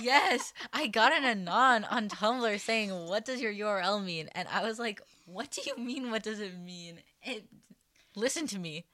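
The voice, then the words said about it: Minnesotan accent. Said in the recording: “I have a Minnesotan accent.”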